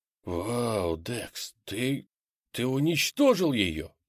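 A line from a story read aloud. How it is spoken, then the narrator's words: Whisper. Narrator (Russian): прошептал я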